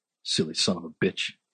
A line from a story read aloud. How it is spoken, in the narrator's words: he muttered